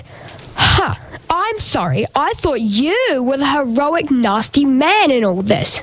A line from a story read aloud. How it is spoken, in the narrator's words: Sophie spluttered